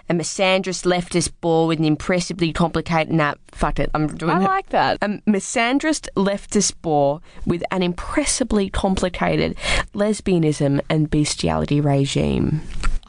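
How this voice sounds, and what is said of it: Put-on accent of an imagined man. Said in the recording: “I'm going to do the accent I imagine you would have.”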